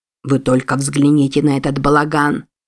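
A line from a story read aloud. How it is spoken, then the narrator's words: Colonel's grumbling. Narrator (Russian): проворчал полковник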